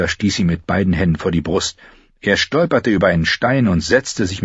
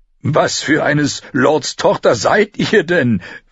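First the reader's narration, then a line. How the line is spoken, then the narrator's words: Asked laughing. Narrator (German): fragte und lachte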